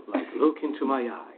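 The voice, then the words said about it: Very low, mystical hypnotist voice. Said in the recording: “the stage hypnosis voice ... it used to be really, really, really low and had to be mystical”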